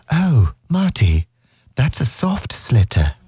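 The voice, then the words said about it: Put-on English accent. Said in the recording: “It's just so nasty, isn't it, in an English accent?”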